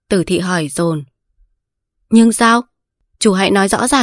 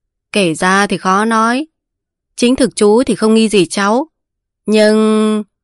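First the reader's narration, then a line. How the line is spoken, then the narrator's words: Smiling. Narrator (Vietnamese): Tế Ban mỉm cười mà nói rằng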